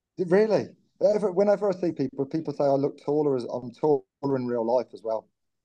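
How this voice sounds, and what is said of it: Birmingham (Brummie) accent. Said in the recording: “Your accent. Are you a fellow Brummie? ... Yes, I am our kid. ... I'm born and bred Birmingham, so I sensed that as soon as you came on.”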